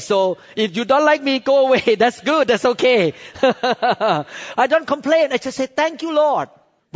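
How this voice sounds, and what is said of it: Accent that is hard to understand. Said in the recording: “he could not understand me or my accent”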